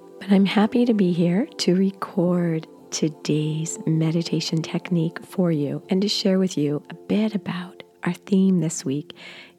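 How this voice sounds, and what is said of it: Stuffy, congested voice. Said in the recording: “You can hear in my voice that I'm still battling a cold”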